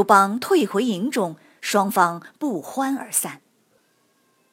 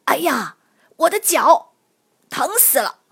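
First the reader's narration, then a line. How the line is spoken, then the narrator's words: Feigned pained shout. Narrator (Chinese): 刘邦假装射中了脚，大声喊道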